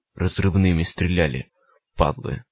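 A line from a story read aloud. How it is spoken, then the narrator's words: Hoarse rasp. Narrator (Russian): прохрипел странник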